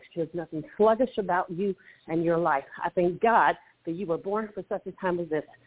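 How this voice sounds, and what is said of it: Breathless, out-of-breath voice. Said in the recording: “I'm out of breath.”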